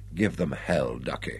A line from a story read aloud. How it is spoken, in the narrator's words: An assistant director whispered